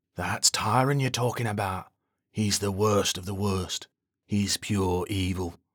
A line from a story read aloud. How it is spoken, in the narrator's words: Kelly says in a hushed voice